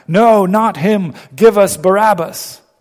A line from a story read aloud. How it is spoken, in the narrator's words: they shouted back